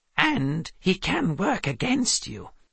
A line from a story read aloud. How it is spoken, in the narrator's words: Calvin said quietly from Seth's pocket